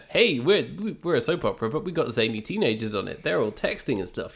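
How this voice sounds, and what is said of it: Mocking put-on character voice. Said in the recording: “my impression of Hollyoaks”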